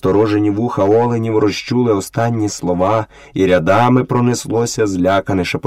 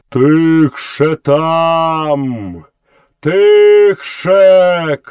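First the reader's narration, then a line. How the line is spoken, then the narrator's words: Elephant shouting. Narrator (Ukrainian): крикнув Хаті дикий слон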